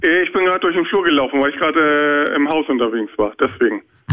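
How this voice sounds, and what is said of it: Out of breath. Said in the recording (German): “Du klingst so außer Atem.”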